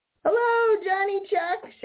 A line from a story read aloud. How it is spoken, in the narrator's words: shouted Peter Rabbit